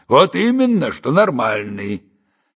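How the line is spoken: Heavy sigh. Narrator (Russian): тяжело вздохнул чекист

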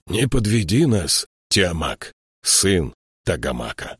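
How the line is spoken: Hoarse. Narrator (Russian): хрипло сказал он

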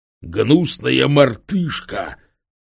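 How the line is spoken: Hoarse, breaking with rage. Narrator (Russian): просипел по-английски прерывающийся от бешенства голос

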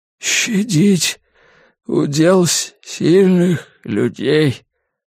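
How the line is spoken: Sigh. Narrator (Russian): он вздохнул

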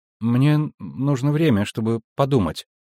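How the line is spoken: Uncertain repetition. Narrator (Russian): неуверенно повторила Цири

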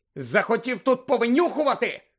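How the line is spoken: Shouting. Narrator (Ukrainian): крикнув Гаррі

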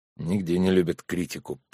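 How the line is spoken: Muttered with a sigh. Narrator (Russian): пробормотал, вздохнув Сергей

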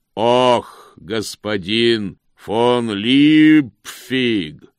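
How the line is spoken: Booming call from afar. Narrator (Russian): прогремело с конюшенного двора

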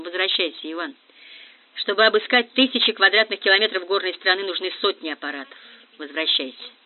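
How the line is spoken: Flat, exhausted voice. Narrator (Russian): Грант, тоже не отдыхавший последние 2 суток, измотанный ожиданием и тревогой, сказал невыразительным тусклым голосом

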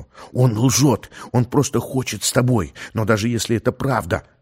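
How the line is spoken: Fervent whisper. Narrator (Russian): горячо зашептал ей Гомер

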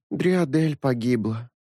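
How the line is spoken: Weary young woman. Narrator (Russian): устало сообщила девица с малиновыми кудряшками

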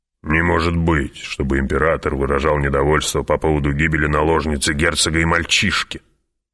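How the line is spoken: Muttering. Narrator (Russian): пробормотал барон

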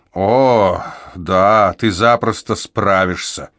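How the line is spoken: Growled. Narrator (Russian): прорычала Аликея

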